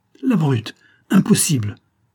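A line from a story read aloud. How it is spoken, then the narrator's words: Exclaimed. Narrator (French): s'écria O'Brien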